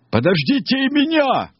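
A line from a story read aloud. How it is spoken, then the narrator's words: Sudden shout. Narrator (Russian): Неожиданно закричал Лимонишко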